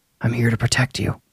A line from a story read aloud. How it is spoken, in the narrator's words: I even whispered to her